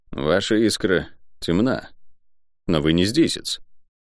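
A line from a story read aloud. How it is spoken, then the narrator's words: Quiet. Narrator (Russian): молодой человек тихо сказал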